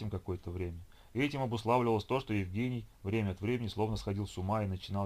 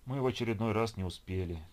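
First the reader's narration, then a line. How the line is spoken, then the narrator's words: Sad statement. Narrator (Russian): печально констатировал Геннадий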